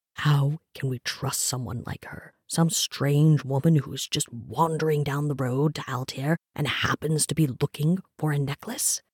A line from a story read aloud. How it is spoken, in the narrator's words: Trevok hissed